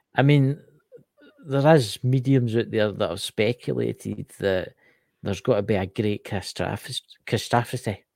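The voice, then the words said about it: Scottish accent. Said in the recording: “It's a Scottish accent, guys.”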